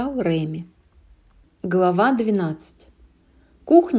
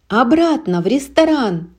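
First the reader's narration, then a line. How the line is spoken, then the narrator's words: Shouted reply. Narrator (Russian): через плечо крикнул Реми в ответ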